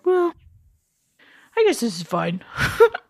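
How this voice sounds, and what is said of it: Imitates a character's voice. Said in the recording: “That's my impression of him.”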